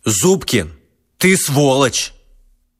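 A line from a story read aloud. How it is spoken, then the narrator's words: Loud. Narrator (Russian): громко сказал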